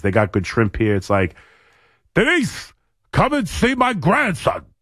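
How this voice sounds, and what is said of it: Impression of Abe Vigoda. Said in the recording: “does an impression of that, of Abe Vigoda in that movie”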